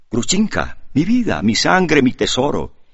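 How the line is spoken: Exclamation. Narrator (Spanish): exclamó Demetrio

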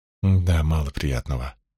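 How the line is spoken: Muttered. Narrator (Russian): пробормотала Илэйн

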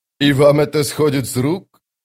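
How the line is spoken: Loud laughter. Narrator (Russian): Незнакомец расхохотался

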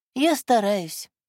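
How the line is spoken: Sigh. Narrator (Russian): вздохнула Катя

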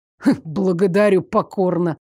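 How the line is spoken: Stifled snort. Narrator (Russian): сдавленно фыркнул Лоренс

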